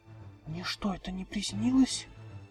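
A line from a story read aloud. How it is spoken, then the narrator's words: Trembling pony whisper. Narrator (Russian): прошептала поняшка дрожащим голосом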